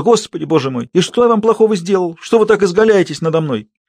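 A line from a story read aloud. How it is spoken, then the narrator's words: Whimpering. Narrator (Russian): Парфишка захныкал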